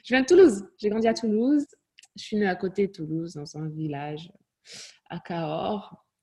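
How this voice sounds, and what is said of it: Slight non-Parisian French accent. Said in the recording (French): “j'entends un léger accent ... tu n'as pas d'accent parisien ... J'ai un accent.”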